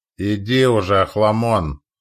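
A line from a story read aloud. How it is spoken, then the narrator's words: Grumbling. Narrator (Russian): проворчал командир расчета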